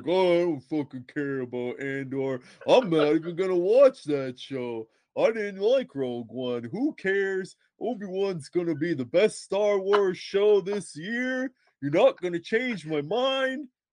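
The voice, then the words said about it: Imitates another person's voice. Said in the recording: “That was a perfect impression”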